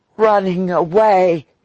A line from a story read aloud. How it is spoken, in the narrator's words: he gasped